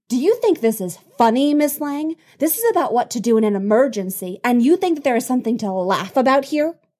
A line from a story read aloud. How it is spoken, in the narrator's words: But Cassie can't stop laughing